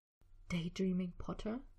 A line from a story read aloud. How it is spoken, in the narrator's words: whispered, leaning in close, his words sharp, dragging across Harry's cheek